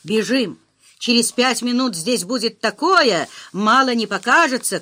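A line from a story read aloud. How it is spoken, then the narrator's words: Urgent shout. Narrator (Russian): крикнул профессор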